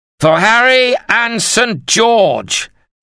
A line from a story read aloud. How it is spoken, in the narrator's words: Sir John Cornwell bellowed